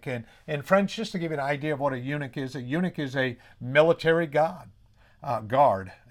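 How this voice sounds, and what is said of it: New England accent. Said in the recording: “picking on my accent ... it did come out very New England”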